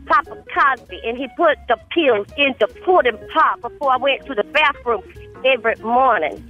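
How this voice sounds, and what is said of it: Impression of Rudy Huxtable. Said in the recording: “Was that Rudy doing Cosby? ... That was an impression of Rudy. ... it's a good impression of Rudy”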